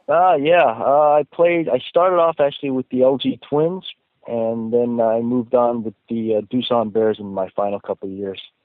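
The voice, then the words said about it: American accent. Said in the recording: “have an American accent”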